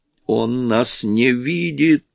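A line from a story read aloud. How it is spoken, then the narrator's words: Hoarse rasp. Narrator (Russian): прохрипела Петти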